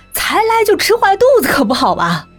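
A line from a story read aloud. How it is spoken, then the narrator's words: Panting. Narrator (Chinese): 风影 一边喘气一边说道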